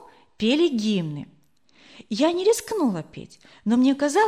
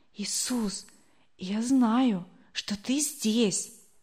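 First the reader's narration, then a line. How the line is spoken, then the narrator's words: Whisper. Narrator (Russian): я шептала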